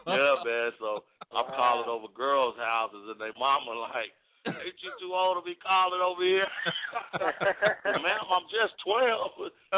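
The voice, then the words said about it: Very deep low-pitched male voice. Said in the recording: “I think you're like 2 octaves lower than my voice. I don't know if I could ever get to the ... voice ... my voice has been like this since I was 12”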